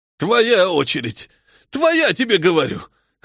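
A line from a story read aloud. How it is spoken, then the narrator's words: Hoarse shouting, shivering old man. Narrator (Russian): хрипло орал трясущийся от холода старик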